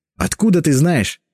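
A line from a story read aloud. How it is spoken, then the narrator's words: Exclaimed. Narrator (Russian): воскликнула Анна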